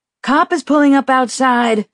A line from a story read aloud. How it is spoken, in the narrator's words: Rafe yelled from the doorway